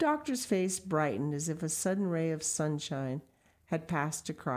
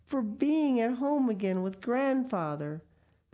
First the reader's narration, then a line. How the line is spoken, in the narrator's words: the child exclaimed